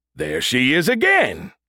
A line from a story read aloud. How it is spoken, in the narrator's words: Brody exclaimed